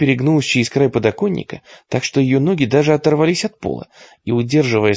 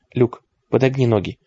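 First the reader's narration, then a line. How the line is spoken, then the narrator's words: Strikingly calm. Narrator (Russian): проговорила Клэр, причем настолько спокойно, что это даже поразило ее саму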